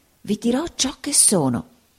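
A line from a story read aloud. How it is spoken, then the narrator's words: Whisper. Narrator (Italian): bisbigliò il signor Creakle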